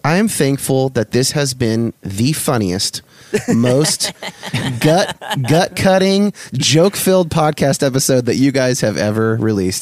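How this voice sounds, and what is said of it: Sarcastic delivery. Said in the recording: “I'm obviously being sarcastic.”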